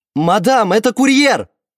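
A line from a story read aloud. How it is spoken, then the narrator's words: Louder, trembling shout. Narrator (Russian): крикнул громче, но его голос предательски дрожал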